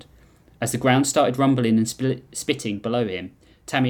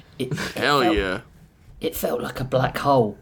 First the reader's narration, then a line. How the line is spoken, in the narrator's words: he whispered